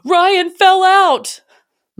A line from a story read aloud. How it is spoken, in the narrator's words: Without missing a beat, my dad yells from the back row